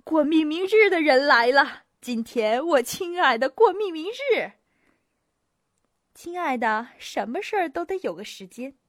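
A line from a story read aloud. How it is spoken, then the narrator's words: Laughing shout. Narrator (Chinese): 伯爵笑着喊道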